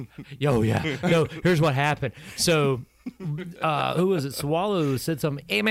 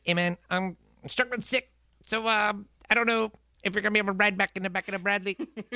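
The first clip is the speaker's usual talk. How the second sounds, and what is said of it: Imitates another person's voice. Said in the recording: “This is a Samoan guy... that's dead on, dude. It's an amazing impersonation... That is accurate... That's what you sound like.”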